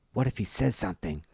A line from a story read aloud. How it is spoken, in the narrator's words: Riewoldt whispers